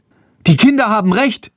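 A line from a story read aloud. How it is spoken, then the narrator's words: Young woman calling. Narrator (German): ruft eine junge Frau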